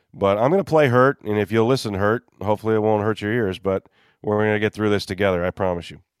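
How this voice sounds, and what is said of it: Congested, stuffy-nosed voice. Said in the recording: “apologize for my voice. I'm gonna do this with a nose pin or a clothes pin on my nose. A little under the weather today.”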